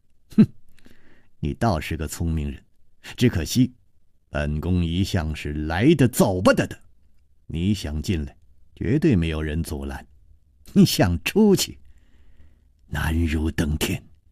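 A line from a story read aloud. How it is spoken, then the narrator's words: Sneering. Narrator (Chinese): 宫南雁冷笑着说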